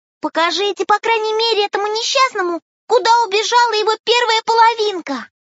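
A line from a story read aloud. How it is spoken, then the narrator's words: Bee's excited plea. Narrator (Russian): взволнованно попросила пчелка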